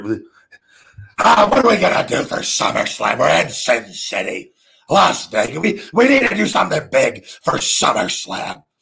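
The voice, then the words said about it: Vince McMahon impression. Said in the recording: “I can do an impersonation ... Vince McMahon's having a production meeting”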